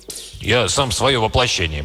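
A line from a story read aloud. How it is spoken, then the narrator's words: Grumbling strongman. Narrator (Russian): проворчал богатырь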